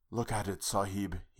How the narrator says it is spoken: whispered

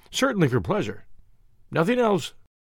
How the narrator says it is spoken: I answered eagerly

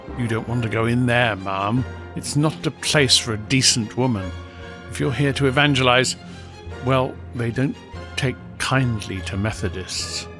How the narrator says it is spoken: murmuring

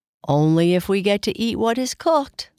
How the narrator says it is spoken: laughed Kai Kai

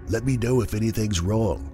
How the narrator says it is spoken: he whispered

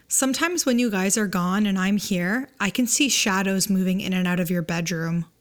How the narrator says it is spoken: Casually, says very calmly

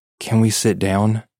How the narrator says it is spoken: I asked breathlessly

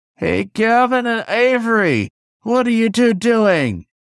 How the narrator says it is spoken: I shouted at the top of my lungs

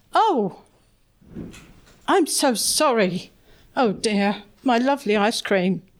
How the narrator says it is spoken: He'd woken with a jump at the sudden coldness, and they both exclaimed at the same time

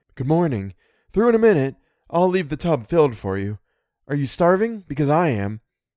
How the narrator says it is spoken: Eleanor called

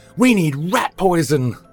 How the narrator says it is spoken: Victor yelled

